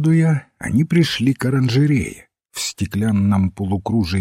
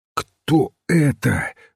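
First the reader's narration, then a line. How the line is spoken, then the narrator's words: Exclaim falling to whisper. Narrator (Russian): воскликнул отец Браун, и голос его упал до шепота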